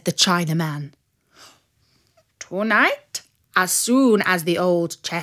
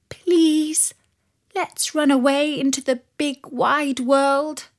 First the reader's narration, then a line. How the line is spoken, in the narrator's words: she begged him